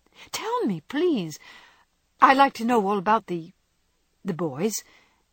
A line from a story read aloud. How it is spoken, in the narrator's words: said Jo eagerly